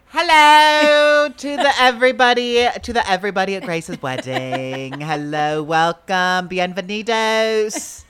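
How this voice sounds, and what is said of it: Put-on British accent. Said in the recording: “I think it's going to give me just this accent ... You're going to be a Brit.”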